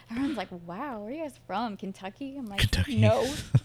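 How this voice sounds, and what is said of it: Southern American accent. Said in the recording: “we're the only people there that have a southern accent ... Was it really that thick?”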